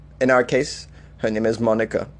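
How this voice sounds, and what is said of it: Attempted Polish accent. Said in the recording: “Is that a Polish accent? I don't even know. I'm trying.”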